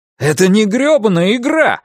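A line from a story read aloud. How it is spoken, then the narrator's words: Exclaimed. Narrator (Russian): воскликнул Ларри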